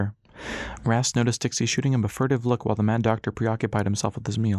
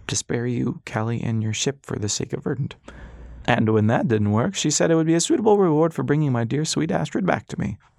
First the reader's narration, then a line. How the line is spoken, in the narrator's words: Dixie said, choking on the word